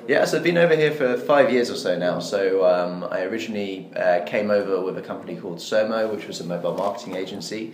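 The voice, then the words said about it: British accent. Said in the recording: “you've got two British accents”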